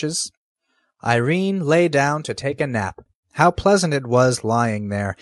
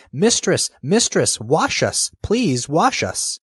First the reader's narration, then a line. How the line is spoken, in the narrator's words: the dishes cried